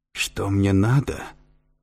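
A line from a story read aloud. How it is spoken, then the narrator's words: Grating, hoarse, muffled phone voice. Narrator (Russian): проскрежетал в трубке голос директора, хриплый и глухой, как у старика с ангиной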